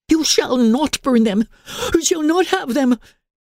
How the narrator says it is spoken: gasped Emily

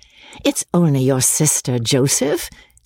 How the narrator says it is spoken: said Amelia, laughing

